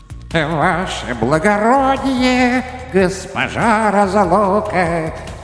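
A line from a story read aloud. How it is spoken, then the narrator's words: Sing-song greeting. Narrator (Russian): нараспев приветствовала беда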